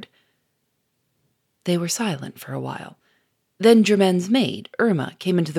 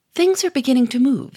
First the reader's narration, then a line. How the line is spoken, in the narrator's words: said Gouchard cheerfully